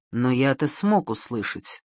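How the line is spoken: Whispered reply. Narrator (Russian): А Пьер ответил шепотом

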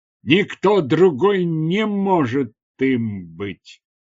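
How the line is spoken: Plain. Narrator (Russian): ответил Фалсивос

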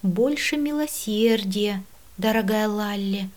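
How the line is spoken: Resigned sigh. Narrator (Russian): вздохнула я, смиряясь

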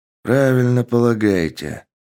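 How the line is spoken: Sighing. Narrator (Russian): вздохнул капитан

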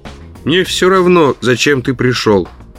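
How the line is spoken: Grumble. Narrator (Russian): проворчал он

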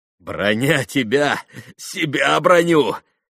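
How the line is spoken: Laughing again. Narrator (Russian): опять засмеялся Иван

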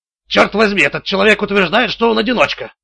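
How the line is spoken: Snapped. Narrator (Russian): огрызнулся Блейк

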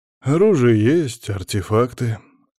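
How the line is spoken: Lazy guard's question. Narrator (Russian): лениво поинтересовался у Леонида Владимировича Юдащева охранник на проходной графского поместья

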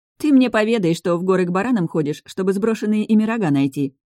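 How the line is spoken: Mocking advice. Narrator (Russian): насмешливо посоветовала Таша

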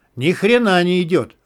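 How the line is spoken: Owl yelling. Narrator (Russian): завопил филин

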